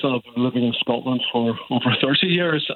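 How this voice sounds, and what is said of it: Strong Northern Irish accent. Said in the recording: “a hint of a Northern Irish accent ... quite a distinctive Northern Ireland accent, which I've got to say is absolutely lovely ... It's still quite strong.”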